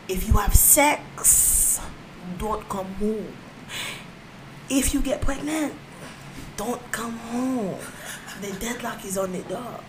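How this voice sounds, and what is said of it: Imitates another person's accent. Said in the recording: “in her accent”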